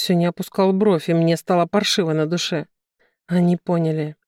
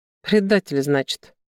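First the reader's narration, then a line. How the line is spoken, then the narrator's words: Snort. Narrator (Russian): Новицкий хмыкнул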